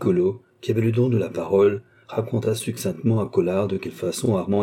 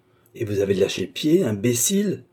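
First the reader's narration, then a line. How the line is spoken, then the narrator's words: Angry exclamation. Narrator (French): s'écria Collard avec colère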